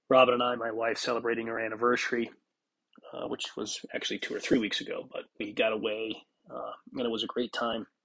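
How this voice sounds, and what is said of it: Stuffy, congested voice. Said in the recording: “apologize for my voice. If you hear anything different, I'm kind of stuffy and congested. Not sure if it's a cold or allergies or a combination of the two”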